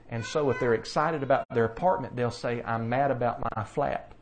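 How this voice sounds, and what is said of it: Southern American accent. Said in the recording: “You could tell I speak Southern accent.”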